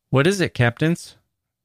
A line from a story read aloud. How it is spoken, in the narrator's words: the Negro said